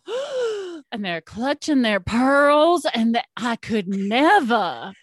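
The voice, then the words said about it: Put-on Southern American accent. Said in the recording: “I'm using a Southern accent”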